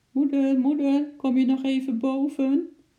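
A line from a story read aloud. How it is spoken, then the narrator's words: Pitiful little voice calling. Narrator (Dutch): riep ze met een zielig stemmetje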